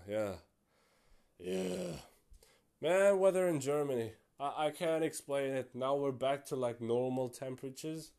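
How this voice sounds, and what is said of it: Tired, strained, fading voice. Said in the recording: “I'm tired. ... My voice is actually leaving me right now.”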